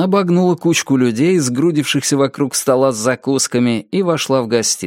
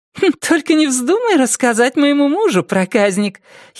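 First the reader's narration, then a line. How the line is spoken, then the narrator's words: Giggling. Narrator (Russian): хихикнула Тина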